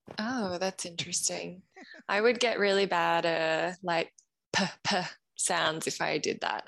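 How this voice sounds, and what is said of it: Australian accent. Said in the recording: “That's an awesome accent ... an Australian accent”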